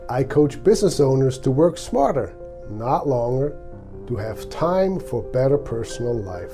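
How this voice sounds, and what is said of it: Swiss accent. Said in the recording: “my accent, I came from Switzerland”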